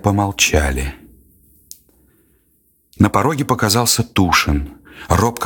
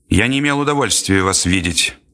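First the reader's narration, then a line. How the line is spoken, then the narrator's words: Cold, clipped. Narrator (Russian): холодно и отрывисто сказал князь Андрей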